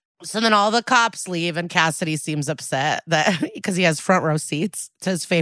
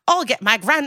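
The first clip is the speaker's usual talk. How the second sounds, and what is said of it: Bad put-on Irish accent. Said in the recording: “And then he starts doing an Irish accent. ... I'm bad at accents.”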